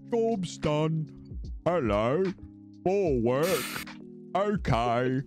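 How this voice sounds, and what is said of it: Video game peasant character voice. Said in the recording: “Otis is supposed to sound like a Warcraft 3 peasant”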